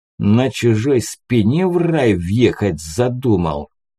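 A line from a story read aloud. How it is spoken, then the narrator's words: Hiss. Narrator (Russian): прошипел шприц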